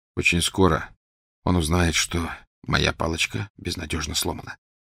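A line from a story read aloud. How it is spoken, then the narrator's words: Quiet. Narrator (Russian): тихо сказал Гарри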